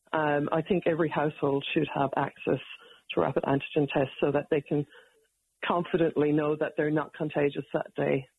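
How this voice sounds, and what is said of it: Irish accent. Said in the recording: “Do I sense an Irish accent there? ... I can't get rid of the accent ... anybody with an Irish accent”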